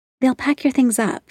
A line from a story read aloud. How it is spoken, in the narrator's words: she said, her voice gentle